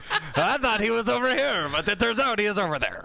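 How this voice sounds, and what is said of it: Put-on French Canadian accent. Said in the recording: “Nice accent. ... French Canadian, I think.”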